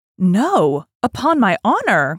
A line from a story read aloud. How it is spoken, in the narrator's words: cried his majesty's guardsmen